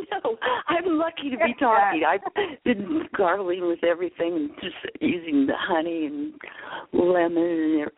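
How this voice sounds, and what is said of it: Hoarse, nearly lost voice. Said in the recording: “I woke up this morning and I lost my voice.”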